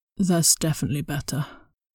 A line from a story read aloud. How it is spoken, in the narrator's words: Brian slurred